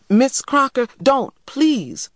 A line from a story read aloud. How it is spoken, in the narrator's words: I cried